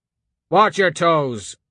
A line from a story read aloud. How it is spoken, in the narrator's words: someone barked